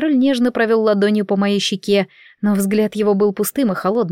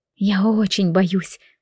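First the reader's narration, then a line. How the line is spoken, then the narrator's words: Whisper. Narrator (Russian): прошептала я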